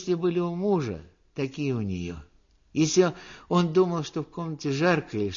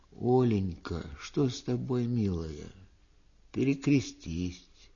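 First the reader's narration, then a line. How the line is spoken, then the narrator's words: Tender, soothing. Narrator (Russian): Пустовалов говорила ей нежно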